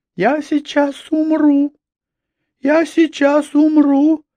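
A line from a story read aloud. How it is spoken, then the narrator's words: Moaning. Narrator (Russian): стонала она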